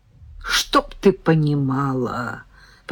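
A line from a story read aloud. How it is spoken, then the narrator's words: Muttered. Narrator (Russian): пробормотала Наташа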